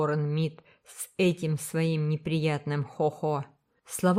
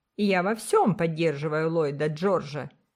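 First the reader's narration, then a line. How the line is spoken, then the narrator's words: Sharp reply. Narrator (Russian): резко отозвалась Сюзан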